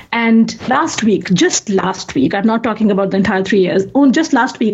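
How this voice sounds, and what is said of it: Strong accent, hard to understand. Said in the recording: “my accent ... how horrible my accent is ... it's hard for them to understand ... I could not understand a word because of your accent”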